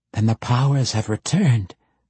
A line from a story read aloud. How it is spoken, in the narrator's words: Bienri gasped